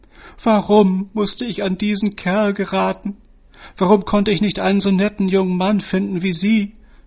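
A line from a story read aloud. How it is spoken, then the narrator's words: Sobbing. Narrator (German): schluchzte sie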